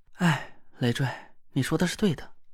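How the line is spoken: Hesitant, soft sigh. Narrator (Chinese): 田慧文的脸色变幻不定的，他沉默了半天，轻轻叹了口气，说道

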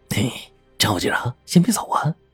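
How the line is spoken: Chuckling, quiet. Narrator (Chinese): 二溜子笑呵呵的小声说

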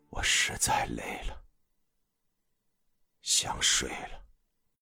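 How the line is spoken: Low voice. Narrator (Chinese): 他低声说道

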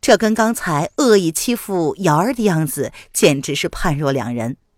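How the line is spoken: Polite, distant question. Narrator (Chinese): 林渊淡淡的回之一笑，礼貌而疏离的问道

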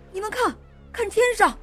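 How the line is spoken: Sailor shouting. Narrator (Chinese): 又有水手喊道

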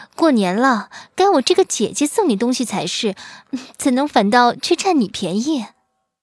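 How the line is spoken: Shy and happy. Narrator (Chinese): 说罢，眉眼里流露出羞涩而又欢喜的心绪

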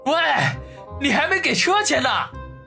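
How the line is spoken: Pained scream. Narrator (Chinese): 王宇感觉自己的某处好像要被压断了一般，惨叫地喊道

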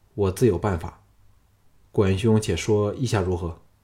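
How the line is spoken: Exhaling sigh. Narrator (Chinese): 管仲爷吁出一口气说

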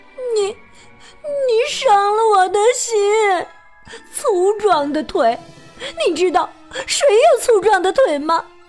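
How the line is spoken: Crying. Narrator (Chinese): 他会哭着说

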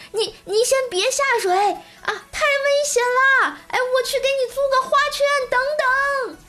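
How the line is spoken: Urgent shout. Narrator (Chinese): 我妈……赶紧喊道

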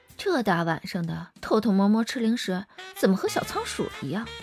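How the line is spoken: Soft amused laugh. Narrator (Chinese): 张思年轻声一笑

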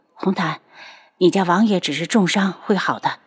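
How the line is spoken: Tired soft consoling. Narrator (Chinese): 楚清瑶一脸疲惫，低声的安慰

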